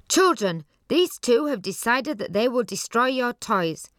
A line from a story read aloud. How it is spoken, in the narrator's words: He was afraid to attack Johnny, and so he just cried out